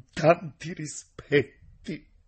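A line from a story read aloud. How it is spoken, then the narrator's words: Sobbing reply. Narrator (Italian): rispose con un singhiozzo nella gola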